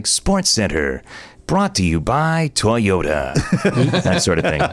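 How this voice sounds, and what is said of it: Sports TV announcer voiceover voice. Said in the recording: “I'll match him with my ESPN Sports Center voiceover guy. You know, like you watch Sports Center, and the guy's like”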